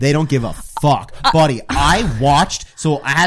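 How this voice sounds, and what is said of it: Usual voice. Nothing is said of it.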